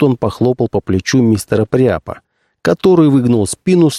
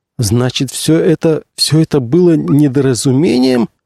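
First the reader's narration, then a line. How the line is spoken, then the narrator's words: Stammering. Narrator (Russian): заикался хозяин Ледового института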